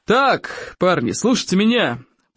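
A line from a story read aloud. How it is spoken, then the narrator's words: Roaring. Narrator (Russian): проревел Плевака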